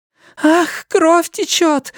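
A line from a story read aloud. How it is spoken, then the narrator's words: Sharp cry. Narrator (Russian): вскрикнула Линда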